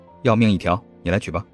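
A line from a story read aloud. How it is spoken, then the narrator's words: Low voice, smiling. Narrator (Chinese): 谢景亭笑着 沉声道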